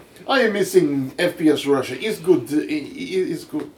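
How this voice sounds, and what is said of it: Put-on Russian accent. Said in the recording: “My Russian accent.”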